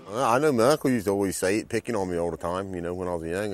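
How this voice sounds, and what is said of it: Outer Banks North Carolina accent. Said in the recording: “on the coast of North Carolina, right in the Outer Banks, and they've got a very particular accent”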